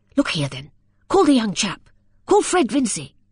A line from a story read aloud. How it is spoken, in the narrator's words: he rallied, and said eagerly